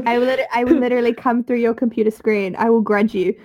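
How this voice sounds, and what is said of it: New Zealand accent. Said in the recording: “my accent wasn't too hard to understand ... a Kiwi accent”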